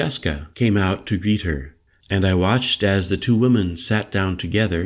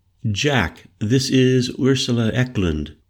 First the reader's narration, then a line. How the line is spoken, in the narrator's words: she said evenly to me in English